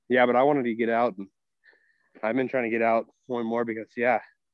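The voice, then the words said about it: Out of breath while talking. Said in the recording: “that's why I kind of sound out of breath ... I'm actually currently hiking in our 19 degree Texas weather.”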